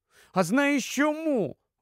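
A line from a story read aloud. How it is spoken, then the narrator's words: Offended exclamation. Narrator (Ukrainian): вигукнула ображено Люсі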